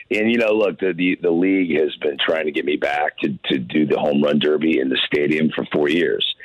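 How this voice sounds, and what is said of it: Hoarse, raspy, strained voice. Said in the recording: “I sound like a frog with a bad smoking habit. ... my voice my voice is shredded ... I actually had a vocal cord problem”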